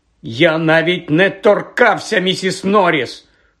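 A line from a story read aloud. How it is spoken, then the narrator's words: Loud, embarrassed. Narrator (Ukrainian): Голосно вигукнув Гаррі, відчуваючи незручність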